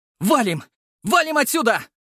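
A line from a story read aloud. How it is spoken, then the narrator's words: Shout. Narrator (Russian): закричал я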